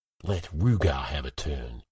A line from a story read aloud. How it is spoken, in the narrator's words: Irem hissed